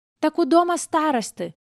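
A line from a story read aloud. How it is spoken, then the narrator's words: Bold boy shouting. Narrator (Russian): выкрикнул самый смелый, вихрастый, рыжеволосый мальчонка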